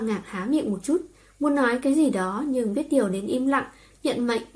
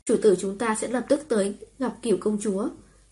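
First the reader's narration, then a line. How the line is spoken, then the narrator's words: Cold. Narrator (Vietnamese): lạnh lùng mở miệng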